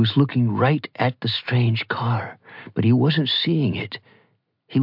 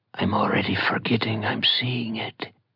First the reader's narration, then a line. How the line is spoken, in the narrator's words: Baos whispers to no one in particular